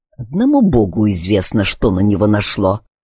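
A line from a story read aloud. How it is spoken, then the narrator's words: Muttering. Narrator (Russian): пробормотал Паттерсон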